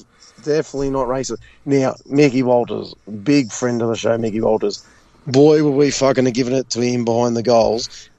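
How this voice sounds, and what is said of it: Hoarse, mostly lost voice. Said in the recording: “my voice is lost is because he was in the goal square and I was giving it to his fucking life”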